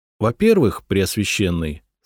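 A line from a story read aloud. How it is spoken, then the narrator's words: Calm. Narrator (Russian): спокойно ответил Берислав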